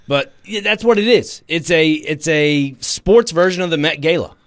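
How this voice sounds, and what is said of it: Southern American twang. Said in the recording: “It's my Southern twang”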